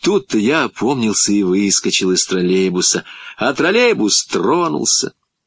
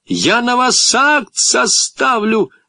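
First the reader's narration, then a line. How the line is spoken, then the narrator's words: Shouting female inspector. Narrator (Russian): закричала контролер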